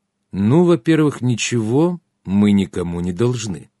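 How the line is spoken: Calm. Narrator (Russian): спокойно начал я

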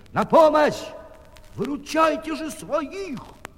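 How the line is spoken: Shout. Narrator (Russian): крикнул

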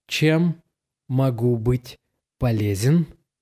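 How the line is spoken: Slow, groggy speech. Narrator (Russian): Лёва как пробудился от глубокого сна, медленно шевеля губами и языком, он произнес

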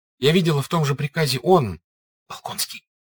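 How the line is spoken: Quick whisper. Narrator (Russian): быстро шепотом проговорила она это слово

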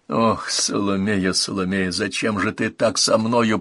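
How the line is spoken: Muttered. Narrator (Russian): пробормотал он

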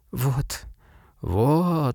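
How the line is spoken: Whisper. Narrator (Russian): шептал доктор

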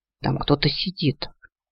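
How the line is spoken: Whisper. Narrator (Russian): говорю шепотом

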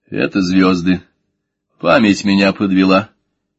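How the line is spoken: Low grumble. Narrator (Russian): разговаривать в полголоса проворчал

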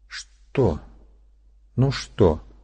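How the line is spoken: Quiet. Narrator (Russian): тихо проговорила она

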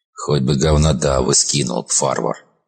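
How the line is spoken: Grumbling. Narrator (Russian): проворчал доктор

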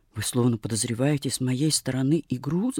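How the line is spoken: Muttering. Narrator (Russian): забормотала

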